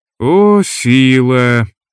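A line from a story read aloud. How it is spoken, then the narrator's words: Exasperated sigh. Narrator (Russian): вздохнул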